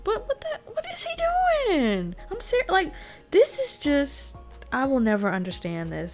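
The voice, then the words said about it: Speaks with a regional accent. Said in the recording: “forgive my accent, y'all”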